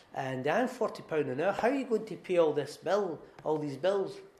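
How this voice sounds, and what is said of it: Imitates a refined-sounding accent. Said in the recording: “He's a lovely, lovely, very refined person. I've tried to do his accent, but I'm not very refined.”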